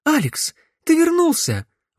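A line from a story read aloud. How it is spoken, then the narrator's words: Excited exclamation. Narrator (Russian): воскликнула Наташа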